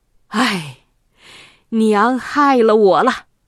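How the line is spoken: Sighing. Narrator (Chinese): 太叔叹着气说

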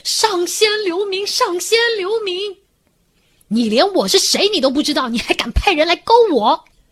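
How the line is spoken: Hurried frightened shout. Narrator (Chinese): 时代冥王一出来就看到悟空的一脸凶神恶煞相，赶紧喊道

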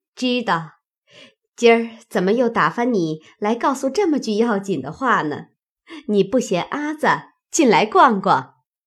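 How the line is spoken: Woman laughing. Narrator (Chinese): 柳家的笑道

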